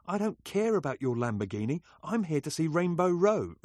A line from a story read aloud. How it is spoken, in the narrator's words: recalled Brian with a laugh